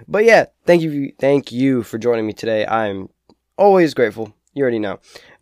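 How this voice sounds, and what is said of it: Raspy, deeper voice from a cold. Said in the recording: “Sorry if I sound like I'm dying... my cold... my voice is a little raspy... I always feel like I have a deeper voice”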